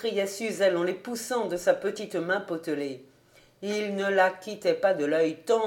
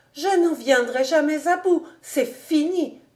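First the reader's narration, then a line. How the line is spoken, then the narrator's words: Exclaiming. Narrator (French): s'écriait-elle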